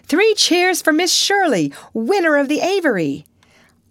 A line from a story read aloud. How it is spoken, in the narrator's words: somebody called out